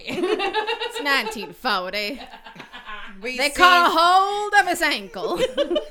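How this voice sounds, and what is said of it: Southern-tinged mid-Atlantic accent. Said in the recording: “You're very southern about your mid-Atlantic accent.”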